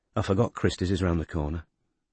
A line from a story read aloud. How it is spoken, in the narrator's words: muttered Robin